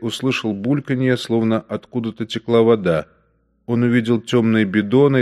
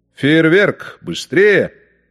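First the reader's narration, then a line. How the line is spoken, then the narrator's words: Shouting. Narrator (Russian): кричал Штейнбреннер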